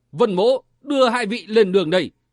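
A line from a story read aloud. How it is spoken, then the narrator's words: Loud shout. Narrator (Vietnamese): chàng quát to lên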